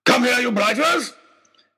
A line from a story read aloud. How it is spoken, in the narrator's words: he was shouting